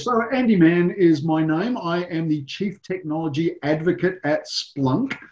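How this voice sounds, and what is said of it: Noticeable foreign accent. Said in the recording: “as you can tell by my accent”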